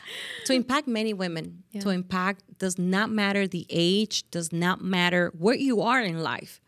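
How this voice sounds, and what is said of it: Noticeable foreign accent. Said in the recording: “I got an accent, so what?”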